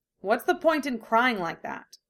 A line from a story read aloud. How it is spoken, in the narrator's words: asks crossly